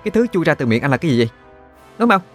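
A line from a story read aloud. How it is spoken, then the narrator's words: Sharp shout. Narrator (Vietnamese): Đan Chi quát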